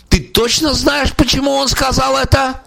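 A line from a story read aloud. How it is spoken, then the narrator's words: Loud questioning. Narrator (Russian): переспросил он меня громко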